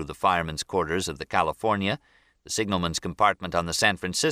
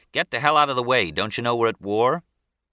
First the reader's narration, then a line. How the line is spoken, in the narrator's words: a chief gunner's mate shouting